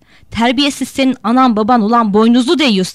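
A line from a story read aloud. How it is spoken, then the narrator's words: Shouted. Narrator (Turkish): diye bağırdı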